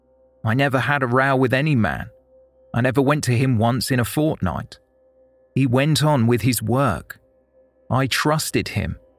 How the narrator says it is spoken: Potter said

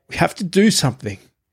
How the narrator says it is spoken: I managed to say through my sobs

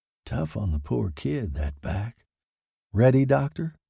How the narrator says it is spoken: He muttered

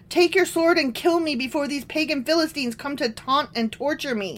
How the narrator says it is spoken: Saul groaned to his armor bearer

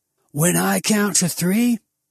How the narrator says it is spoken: he told me too loudly

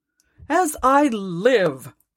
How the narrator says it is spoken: cried Scrooge's nephew

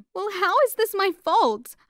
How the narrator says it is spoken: I sobbed

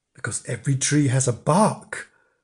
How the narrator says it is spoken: said solemnly

